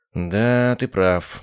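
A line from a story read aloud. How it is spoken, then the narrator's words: Sad sigh. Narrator (Russian): грустно вздохнула Мария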